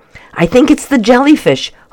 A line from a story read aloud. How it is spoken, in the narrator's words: Homer shouted above the noise